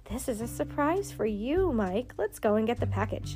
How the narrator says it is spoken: Daddy laughed and said

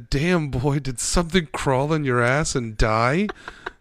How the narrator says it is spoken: he just laughed and said

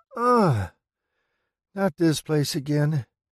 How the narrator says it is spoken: groans

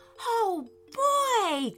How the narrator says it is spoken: cried Harry

